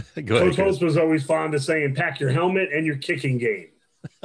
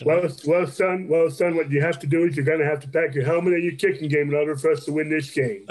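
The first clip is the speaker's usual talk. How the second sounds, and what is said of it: Imitates another person's voice. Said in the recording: “you've got a pretty good Lou Holtz impersonation.”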